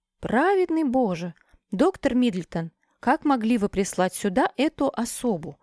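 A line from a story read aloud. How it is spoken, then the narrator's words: Exclaimed. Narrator (Russian): воскликнула мистрис Изи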